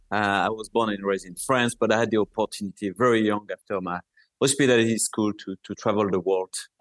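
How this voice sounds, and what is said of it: French-accented English. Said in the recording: “I was born and raised in France. Obviously, you can notice that with my lovely accent.”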